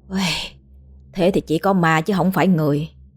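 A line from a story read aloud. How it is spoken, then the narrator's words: Sighing. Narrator (Vietnamese): Chủ tiệm Trần thở dài bảo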